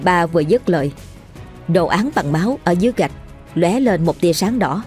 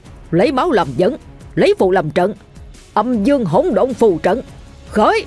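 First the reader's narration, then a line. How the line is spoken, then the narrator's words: Loud roar. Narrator (Vietnamese): Thầy Ba gầm lớn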